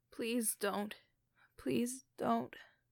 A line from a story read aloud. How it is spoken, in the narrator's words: she mumbled